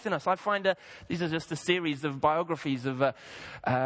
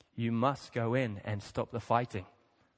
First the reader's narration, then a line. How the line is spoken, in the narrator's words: replied firmly